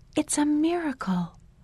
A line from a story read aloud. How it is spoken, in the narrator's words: Sister Makuakane whispered